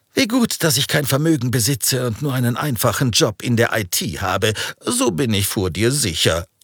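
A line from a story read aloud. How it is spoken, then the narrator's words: Laughing. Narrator (German): lachte er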